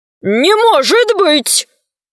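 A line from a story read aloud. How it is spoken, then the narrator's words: Group shouting. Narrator (Russian): закричали волшебники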